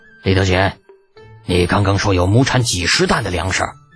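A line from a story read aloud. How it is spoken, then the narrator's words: Hoarse. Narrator (Chinese): 李二的声音有些嘶哑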